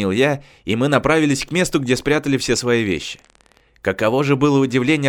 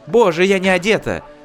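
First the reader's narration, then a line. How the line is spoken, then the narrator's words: Exclamation. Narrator (Russian): воскликнула Жужу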